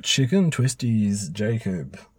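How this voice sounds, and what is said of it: Announcer-style radio voice. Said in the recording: “You're in the real radio voice today, are we?”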